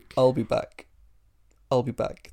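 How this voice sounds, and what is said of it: Half-hearted film character impression. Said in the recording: “you didn't really do the voice very well ... I half-assed it”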